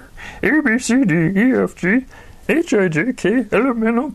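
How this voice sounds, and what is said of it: Imitates Yoda's voice. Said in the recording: “my best Yoda impression”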